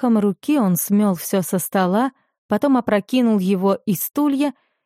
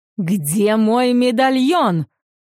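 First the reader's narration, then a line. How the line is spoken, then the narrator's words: Fat man yelling. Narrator (Russian): завопил толстяк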